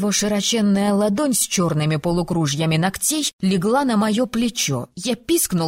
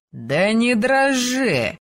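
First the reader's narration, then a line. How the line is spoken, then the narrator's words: Chuckling. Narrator (Russian): хохотнул один из них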